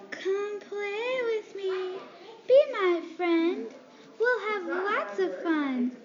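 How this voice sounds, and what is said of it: Creepy voice. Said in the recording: “the creepy voice”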